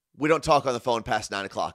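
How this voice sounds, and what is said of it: Attempted British accent. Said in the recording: “big deep voice, British accent ... I want to hear the British accent.”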